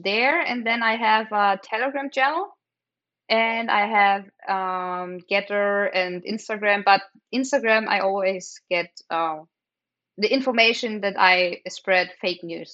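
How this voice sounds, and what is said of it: German accent, sometimes hard to understand. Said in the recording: “my accent ... Sometimes it's hard to understand me ... as a German”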